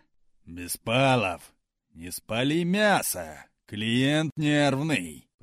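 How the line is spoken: Deep bass voice. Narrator (Russian): пробасил над духом шеф Виктор Петрович

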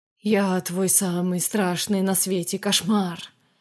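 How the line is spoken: Sepulchral horror-movie voice. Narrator (Russian): проговорила за могильным голосом, имитируя закадровую речь кинострашилок

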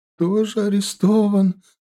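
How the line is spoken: Mother sobbing. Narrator (Russian): рыдала мать

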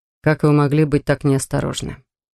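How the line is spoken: Grumbling. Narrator (Russian): продолжал ворчать Соран

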